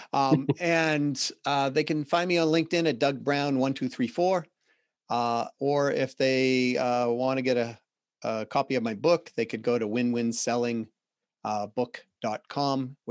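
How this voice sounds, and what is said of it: Boston accent. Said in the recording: “I just heard my Boston accent”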